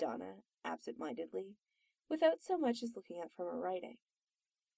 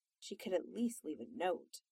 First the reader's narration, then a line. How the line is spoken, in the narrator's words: Donna grumbled to herself